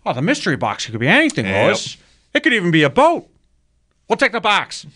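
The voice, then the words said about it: Comedic impersonation voice. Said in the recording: “I'm in my impersonation mode right now today”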